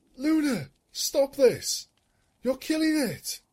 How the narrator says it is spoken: Celestia cried

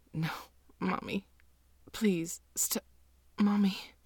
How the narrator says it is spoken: whimpering

